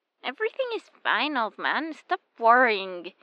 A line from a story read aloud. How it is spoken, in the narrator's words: grumbles another voice from the phone, just as young as the first